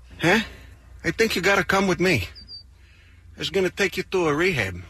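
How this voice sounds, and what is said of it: Overdone put-on Chicago accent. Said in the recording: “putting on. Why would he put on the Chicago accent? ... He's doing a little overboard accent right there.”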